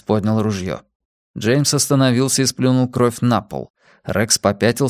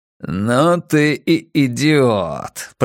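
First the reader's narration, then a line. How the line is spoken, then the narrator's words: Hissing. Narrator (Russian): прошипел Джеймс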